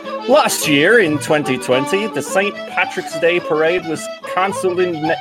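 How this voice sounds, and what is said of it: Put-on accent, drifting. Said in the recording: “I don't know what this accent is anymore.”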